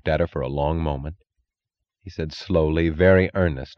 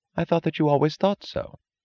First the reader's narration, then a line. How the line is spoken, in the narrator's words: she answered, her voice insolently casual